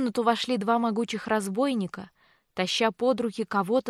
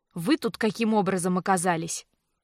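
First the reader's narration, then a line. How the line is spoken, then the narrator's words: Indignant, angry, clipped words. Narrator (Russian): баронесса смерила его пылающим от негодования взглядом, зло отчеканила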